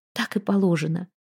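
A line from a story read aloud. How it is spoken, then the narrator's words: Whispered chuckling. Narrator (Russian): шепотом посмеивалась Альдона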